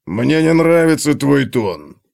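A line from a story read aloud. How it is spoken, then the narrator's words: Nasty voice. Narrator (Russian): противным голосом ответил Готрек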